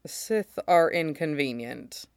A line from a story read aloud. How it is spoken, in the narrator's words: Mace says dryly